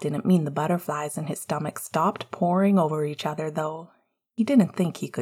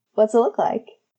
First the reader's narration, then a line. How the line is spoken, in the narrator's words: Sirius laughed, though he kept his voice quiet so Remus could just barely hear it